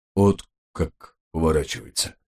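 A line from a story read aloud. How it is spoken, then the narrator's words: Sighed, priest. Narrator (Russian): вздохнул батюшка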